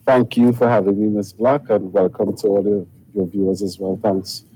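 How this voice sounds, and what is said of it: Trinidadian accent. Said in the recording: “he has a good Trini accent, right? He's from Trinidad and Tobago.”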